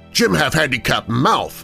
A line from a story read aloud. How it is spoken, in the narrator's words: He barked at me